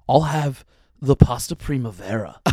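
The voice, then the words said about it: Imitates another person's voice. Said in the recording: “his Keanu Reeves impression was just Keanu Reeves ordering Italian dishes”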